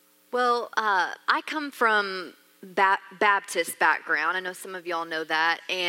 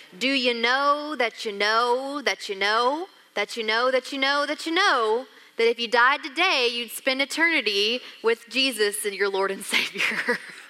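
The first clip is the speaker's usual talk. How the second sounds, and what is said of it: Preachy evangelist voice. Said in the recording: “it's this voice. It's the voice of an evangelist”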